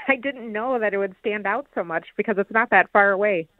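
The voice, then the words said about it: Slight Minnesota accent. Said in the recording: “I noticed a slight, let's just say, Minnesota accent ... it is very obvious ... It's a nice accent.”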